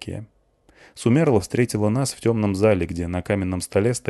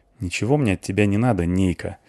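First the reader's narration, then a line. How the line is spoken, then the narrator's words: Gloomy. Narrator (Russian): ответила мрачно Клюся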